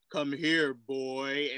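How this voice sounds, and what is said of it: Deep-voiced imitation of a father. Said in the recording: “My dad has, like, that deep voice.”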